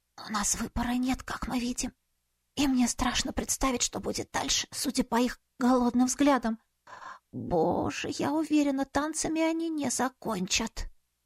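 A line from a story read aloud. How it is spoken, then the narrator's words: Trembling hoarse wheeze. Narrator (Russian): Вера, которую уже била мелкая дрожь, просипела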